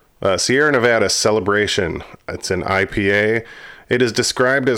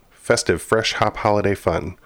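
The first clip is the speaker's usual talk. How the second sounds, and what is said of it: Tongue twister said very fast. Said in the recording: “say that five times fast ... saying that so fast”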